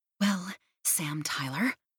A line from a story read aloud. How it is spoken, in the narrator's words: hissed